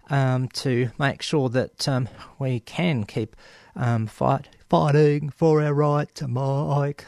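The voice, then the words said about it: Poor imitation of a band's vocals. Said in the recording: “my worst Beastie Boys impersonation”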